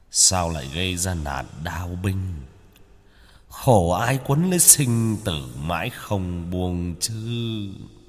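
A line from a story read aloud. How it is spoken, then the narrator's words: Muttered. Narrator (Vietnamese): Ông ta lẩm bẩm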